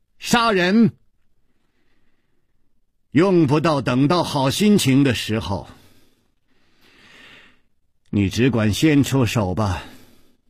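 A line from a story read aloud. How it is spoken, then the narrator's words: Cold. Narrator (Chinese): 殷姬冷冷地说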